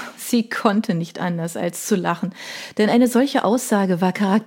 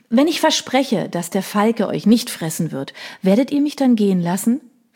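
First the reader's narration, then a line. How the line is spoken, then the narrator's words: Plain question. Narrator (German): fragte sie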